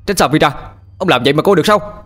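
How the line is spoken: Shouting. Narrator (Vietnamese): Tôi hét lên

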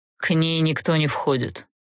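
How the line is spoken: Cold and curt. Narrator (Russian): холодно отрезал Олтерн

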